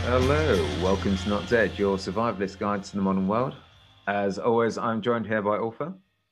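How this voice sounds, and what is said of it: British accent. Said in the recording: “as you might be able to tell from our accents, I'm British.”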